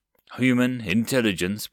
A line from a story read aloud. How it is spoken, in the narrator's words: Blake sighed